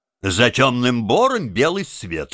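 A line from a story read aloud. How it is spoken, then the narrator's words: Plain. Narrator (Russian): сказал Крыси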